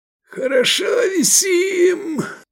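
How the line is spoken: Hoarse wheeze. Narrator (Russian): прохрипел Эдик

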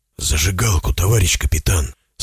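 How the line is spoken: Whisper. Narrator (Russian): снова шепотом напомнил о себе Зотов

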